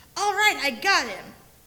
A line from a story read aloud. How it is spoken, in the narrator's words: is really getting into the game, and after zapping a guy, he exclaims